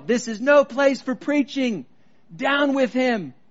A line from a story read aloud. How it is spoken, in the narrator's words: One man began to yell